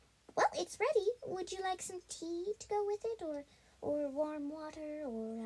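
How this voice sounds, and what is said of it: Usual voice. Nothing is said of it.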